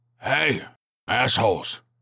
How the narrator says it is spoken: he barked

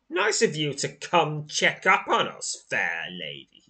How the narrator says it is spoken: sneers

